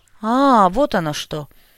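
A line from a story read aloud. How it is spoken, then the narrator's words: Vague, sarcastic snort. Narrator (Russian): неопределенно хмыкнул и, саркастично усмехнувшись, озвучил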